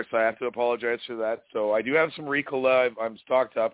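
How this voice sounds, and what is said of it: Hoarse, cracked voice. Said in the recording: “your voice sounds very cracked. ... I am a little hoarse.”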